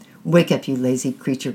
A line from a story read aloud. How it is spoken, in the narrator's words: growled Sai Muhammad